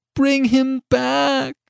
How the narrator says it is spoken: cried the old woman

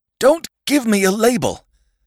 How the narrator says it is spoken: cried the Sandman suddenly

